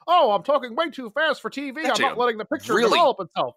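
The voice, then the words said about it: Robotic, fast announcer impression. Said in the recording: “He talks like a robot, and he's like this all the time... That is an incredible impersonation.”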